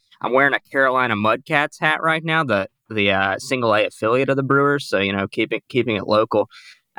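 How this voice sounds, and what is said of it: Southern American twang. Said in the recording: “my accent talking to them about Brewers baseball with a southern twang”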